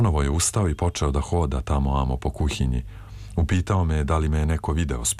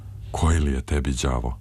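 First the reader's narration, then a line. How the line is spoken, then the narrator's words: Sighing question. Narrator (Serbian): uzdahnuo je i pitao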